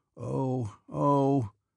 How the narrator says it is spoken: groaned Nesvitsky, as if in fierce pain

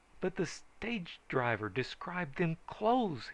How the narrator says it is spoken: he began wildly

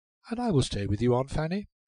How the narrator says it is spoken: went on cheerfully

